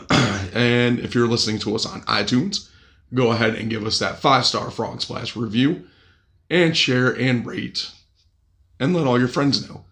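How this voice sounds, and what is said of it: Slightly raspy voice. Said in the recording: “I still have a cold and my voice is still a little raspy”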